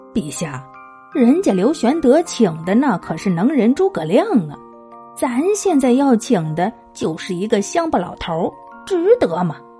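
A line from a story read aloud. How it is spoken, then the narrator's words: Laughing. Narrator (Chinese): 尉迟恭一听笑了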